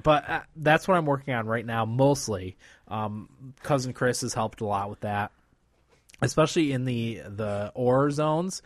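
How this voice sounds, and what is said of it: Slightly slurred drunk speech. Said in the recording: “I'm a little drunk at this point, so I'm slurring my speech a little bit.”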